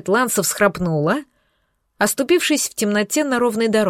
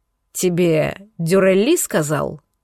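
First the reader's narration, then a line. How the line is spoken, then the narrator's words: Hoarse question. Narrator (Russian): хрипло спросил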